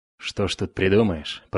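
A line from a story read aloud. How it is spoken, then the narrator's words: Grumbled reply. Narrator (Russian): проворчал в ответ ученик Хедина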